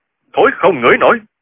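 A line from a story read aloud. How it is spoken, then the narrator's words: Furious loud shout. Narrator (Vietnamese): Chu Điên nghe vậy thì cả giận quát to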